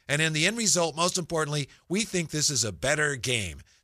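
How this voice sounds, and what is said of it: Imitates another person's voice. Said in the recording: “That's not his accent. He doesn't talk like that. ... Good try.”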